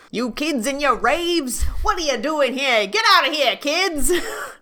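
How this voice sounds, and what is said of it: Put-on New York security guard voice. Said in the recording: “Ah, yes, this New York Sunnydale security guard. ... I don't know what the fuck accent I'm even doing.”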